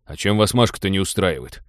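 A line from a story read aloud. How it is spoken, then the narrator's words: Embarrassed grumble. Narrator (Russian): смущенно проворчал Теодор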